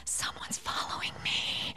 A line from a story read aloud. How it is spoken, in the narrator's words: she whispered